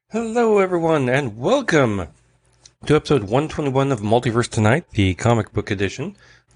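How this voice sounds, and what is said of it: Congested, stuffy-nosed voice. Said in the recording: “I sound congested ... I'm congested. It's allergies”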